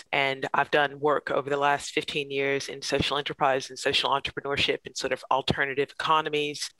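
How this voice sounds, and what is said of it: American accent. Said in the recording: “as you can tell by my accent, I'm originally from the United States”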